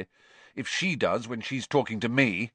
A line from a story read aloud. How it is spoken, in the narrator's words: said Harry bitterly